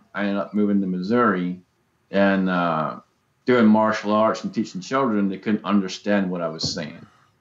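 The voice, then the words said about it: Southern Georgian hillbilly accent. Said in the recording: “you sound like a hillbilly to me ... I've got the hillbilly, Georgian, Southern kind of thing going on”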